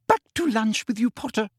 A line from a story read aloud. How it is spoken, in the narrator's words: cried Umbridge